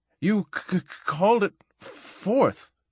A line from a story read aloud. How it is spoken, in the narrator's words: gasped the little man